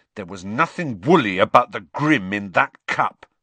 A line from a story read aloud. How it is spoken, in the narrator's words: said Ron hotly